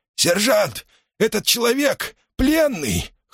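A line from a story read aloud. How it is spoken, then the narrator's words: Hoarse, strangled voice. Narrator (Russian): хриплым сдавленным голосом произнес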